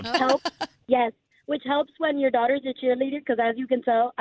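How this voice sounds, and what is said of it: Hoarse, strained, nearly lost voice. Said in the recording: “I have party girl voice, because I screamed on Saturday ... I don't even have a voice. ... You have party girl voice.”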